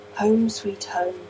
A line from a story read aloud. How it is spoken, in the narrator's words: he said in a listless tone